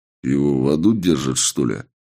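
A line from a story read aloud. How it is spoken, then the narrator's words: Muttered. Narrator (Russian): Буркнул я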